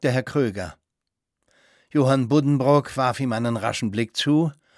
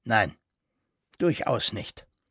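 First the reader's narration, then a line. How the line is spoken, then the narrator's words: Stern reply. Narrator (German): antwortete Lebrecht Kröger streng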